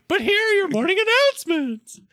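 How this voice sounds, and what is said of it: High falsetto cartoon-like voice. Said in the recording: “I don't know why I'm in falsetto ... I feel like I'm trying to go Mickey Mouse, but I don't know how to actually do it.”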